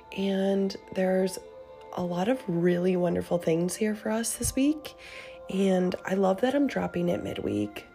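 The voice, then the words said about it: Raspy, sick-sounding voice. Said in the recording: “I've been very sick... bear with me and my raspy voice”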